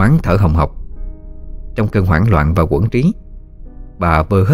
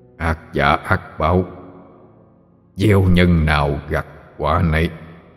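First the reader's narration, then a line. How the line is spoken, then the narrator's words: Eerie gloomy old man's voice. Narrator (Vietnamese): Ông lão ... đáp bằng giọng âm u ma quái quen thuộc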